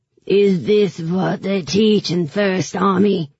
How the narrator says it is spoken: he sneered in his heavy shoe accent

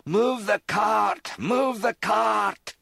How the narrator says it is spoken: Gasping for breath, Mac shouted

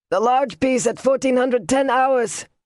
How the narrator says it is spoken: the engineer called out

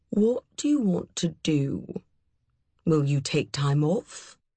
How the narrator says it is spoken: he said in a gentle growl

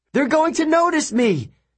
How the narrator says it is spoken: he shouted

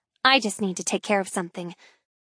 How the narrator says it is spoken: she mumbles

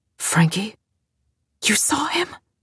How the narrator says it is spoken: Frankie whispered

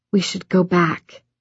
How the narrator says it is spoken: Kath whispered

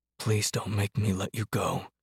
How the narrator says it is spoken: he whispered

